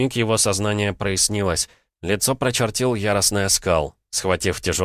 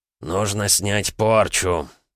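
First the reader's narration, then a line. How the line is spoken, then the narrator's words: Hoarse wheeze. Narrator (Russian): прохрипел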